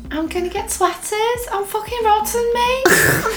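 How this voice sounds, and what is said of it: Soft put-on Scouse accent. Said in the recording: “Scouse accent's really soft... That's really good”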